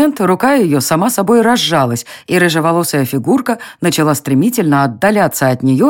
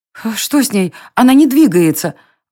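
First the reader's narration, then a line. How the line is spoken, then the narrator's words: Exclaiming. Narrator (Russian): воскликнула Варя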